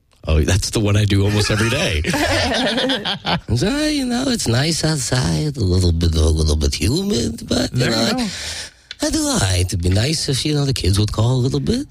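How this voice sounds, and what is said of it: Impression of a short Jewish man. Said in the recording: “your short Jewish man impression”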